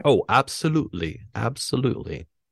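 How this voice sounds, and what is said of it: Poor put-on German accent. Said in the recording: “you can do a better German accent than that ... That's a horrible, horrible.”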